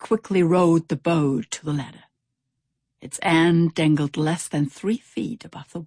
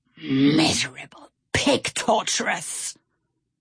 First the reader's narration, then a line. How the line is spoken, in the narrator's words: Stout Sam growled